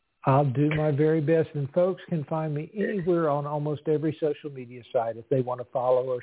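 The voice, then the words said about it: Soothing, pleasant regional accent. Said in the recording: “I love your accent. It is just so soothing and beautiful.”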